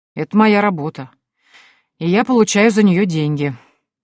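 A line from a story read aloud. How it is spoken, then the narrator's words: Grumbling. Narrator (Russian): проворчал Олаф Битсон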